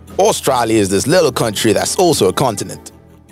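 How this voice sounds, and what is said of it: Put-on accent, likely Australian. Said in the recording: “I can't continue with the accent.”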